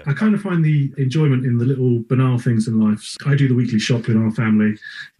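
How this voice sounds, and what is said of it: English accent. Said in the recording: “this guy over in England ... Accent coming at you.”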